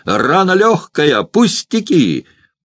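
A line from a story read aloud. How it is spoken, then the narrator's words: Loud shout. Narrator (Russian): громко закричал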